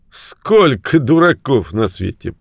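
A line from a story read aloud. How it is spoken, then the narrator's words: Grumble. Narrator (Russian): проворчал он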